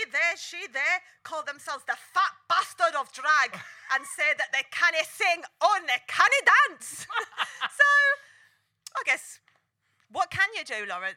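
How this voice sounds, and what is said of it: Attempted Scottish accent. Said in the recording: “that was supposed to be a Scottish accent”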